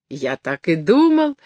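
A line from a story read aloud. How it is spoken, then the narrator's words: Old man's exclamation. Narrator (Russian): воскликнул курчавый старичок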